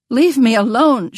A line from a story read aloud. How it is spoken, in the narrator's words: she cried